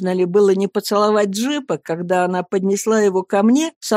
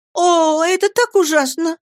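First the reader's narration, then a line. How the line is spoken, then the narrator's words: Screaming. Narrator (Russian): закричала Дора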